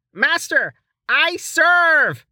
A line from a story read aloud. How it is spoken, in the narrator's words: He yelled